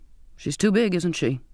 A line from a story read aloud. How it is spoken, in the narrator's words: he said